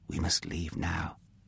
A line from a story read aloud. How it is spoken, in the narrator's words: he whispered